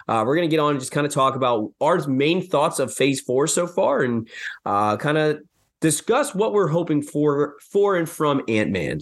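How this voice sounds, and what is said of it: Slightly hoarse voice. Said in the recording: “My voice is a little hoarse ... I've had a sore throat”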